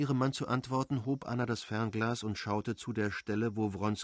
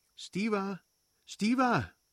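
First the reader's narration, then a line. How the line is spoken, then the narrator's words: Calling. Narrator (German): rief sie den Bruder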